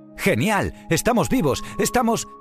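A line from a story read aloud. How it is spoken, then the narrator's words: Surprised exclamation. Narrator (Spanish): exclamó Baiana mientras miraba sorprendida a Maui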